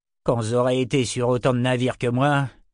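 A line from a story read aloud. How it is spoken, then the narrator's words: Condescending tone. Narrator (French): commença-t-il d'un ton condescendant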